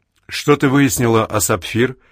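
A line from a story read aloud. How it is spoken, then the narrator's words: Normal voice question. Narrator (Russian): спрашивает Флинт нормальным голосом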